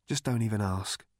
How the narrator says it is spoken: said Marvin

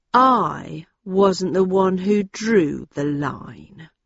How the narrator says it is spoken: he said in a low, controlled voice

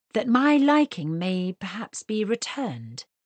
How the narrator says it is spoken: added smoothly

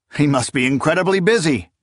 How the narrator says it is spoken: Achaemenid blurted

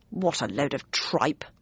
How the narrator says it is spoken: muttered Bradshaw

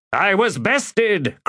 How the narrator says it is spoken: cried Osseric in answer

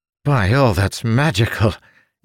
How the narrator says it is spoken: Ildin gasped

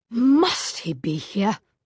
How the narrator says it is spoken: Gabriel growled to Tessa

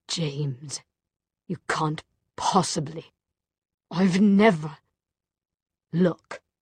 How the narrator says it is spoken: In a choked voice, he said

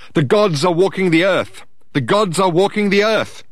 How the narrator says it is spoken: he hollered

